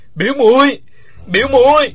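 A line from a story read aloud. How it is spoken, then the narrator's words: Loud cry. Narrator (Vietnamese): Uông Khiếu Phong nằm trên mặt đất gào to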